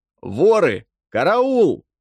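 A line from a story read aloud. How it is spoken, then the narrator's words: Shouted by several. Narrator (Russian): кричали они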